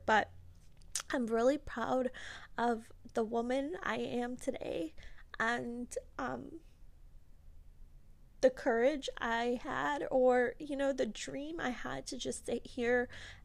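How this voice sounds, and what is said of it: Slightly emotional voice. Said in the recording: “I'm getting a little emotional here”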